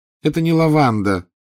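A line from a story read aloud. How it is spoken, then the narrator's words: Tired woman. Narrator (Russian): устало сообщила она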